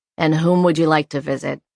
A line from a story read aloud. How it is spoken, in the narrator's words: he said, his words quite polite, but his tone so flat that it was difficult to read